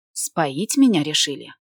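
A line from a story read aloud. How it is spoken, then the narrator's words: Sarcastic snort. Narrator (Russian): саркастично хмыкнула я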